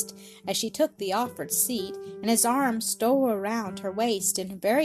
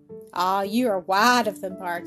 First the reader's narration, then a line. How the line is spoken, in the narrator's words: returned with a light laugh